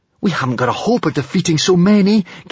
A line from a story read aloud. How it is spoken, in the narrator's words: gasped Hiccup